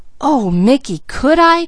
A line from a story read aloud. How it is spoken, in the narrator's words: cried Peaches